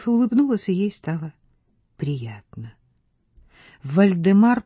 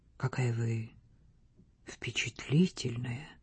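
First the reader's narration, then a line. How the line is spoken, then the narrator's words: Serious whisper. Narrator (Russian): Вальдемар шепнул серьезно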